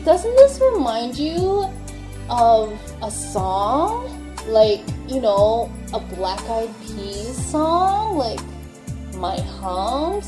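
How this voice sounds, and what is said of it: Valley Girl voice. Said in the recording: “that's just me using my, like, Valley Girl voice.”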